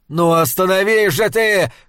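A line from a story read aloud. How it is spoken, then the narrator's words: Shouting. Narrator (Russian): кричал он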